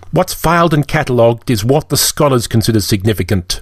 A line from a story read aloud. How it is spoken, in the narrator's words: Lilium snapped